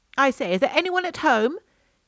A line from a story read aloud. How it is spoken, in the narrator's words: called loudly